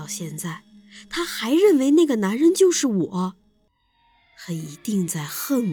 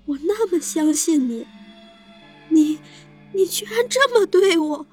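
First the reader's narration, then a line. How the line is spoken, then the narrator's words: Crying. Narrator (Chinese): 张雪捂着胸口，哭着说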